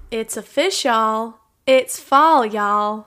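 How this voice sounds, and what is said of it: Put-on country accent. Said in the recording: “I do appreciate the country accent... That was a nice touch.”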